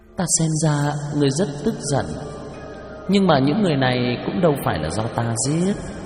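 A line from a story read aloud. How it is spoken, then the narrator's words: Contemptuous, smiling. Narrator (Vietnamese): Cổ Kỳ Nguyệt mỉm cười xem thường nói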